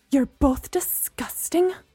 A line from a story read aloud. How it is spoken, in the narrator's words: Gemma spat